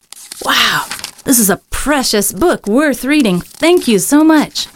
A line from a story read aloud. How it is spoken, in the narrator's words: exclaimed